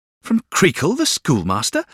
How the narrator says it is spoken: exclaimed Traddles

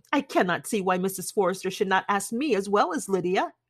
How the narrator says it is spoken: said she

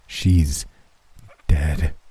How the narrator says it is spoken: the man said, his voice quivering

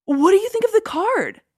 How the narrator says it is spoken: asked eagerly

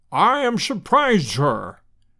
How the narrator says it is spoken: boomed Challenger

